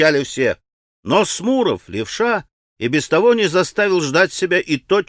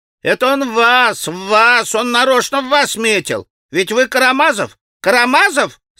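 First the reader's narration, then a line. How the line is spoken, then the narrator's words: Boys shouting with laughter. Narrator (Russian): закричали хохоча мальчишки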